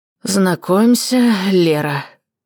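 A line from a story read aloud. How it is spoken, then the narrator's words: Heavy exhaled words. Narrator (Russian): тяжело выдохнул Роман Владимирович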